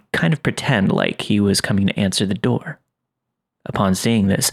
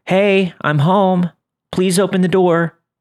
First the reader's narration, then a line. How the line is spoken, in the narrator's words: she started to bang on it and shout